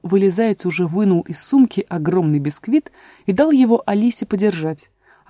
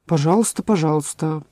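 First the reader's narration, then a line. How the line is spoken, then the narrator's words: Muttered, king. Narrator (Russian): пробормотал король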